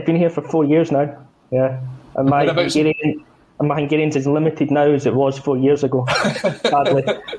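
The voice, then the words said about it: Scottish accent. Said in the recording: “he's not a Hungarian native. It's definitely a Scottish accent.”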